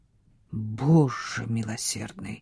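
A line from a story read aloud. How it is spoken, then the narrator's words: Muttering. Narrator (Russian): пробормотал он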